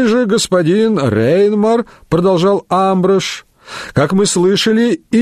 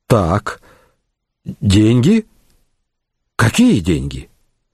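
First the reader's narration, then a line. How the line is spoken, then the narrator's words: Quiet sigh. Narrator (Russian): Шарлей тихо вздохнул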